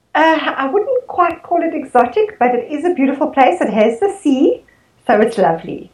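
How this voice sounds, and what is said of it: Pleasant, different-sounding accent. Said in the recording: “I love your accent. It's just lovely to listen to... a different sort of accent”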